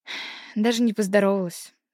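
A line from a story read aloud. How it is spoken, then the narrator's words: Sighing. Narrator (Russian): вздохнула Олеся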